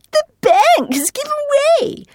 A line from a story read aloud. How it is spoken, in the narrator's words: shrieked Lucia